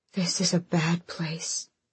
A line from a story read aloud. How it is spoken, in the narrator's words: Elid whispered